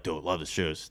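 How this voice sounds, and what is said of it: Bro-ish guy giving a compliment. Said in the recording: “I don't know why I do that voice... None of them sounded like that... my go-to when it's a guy giving a compliment”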